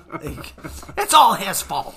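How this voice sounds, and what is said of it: Imitates another person's voice. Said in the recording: “That's my Hadley impression.”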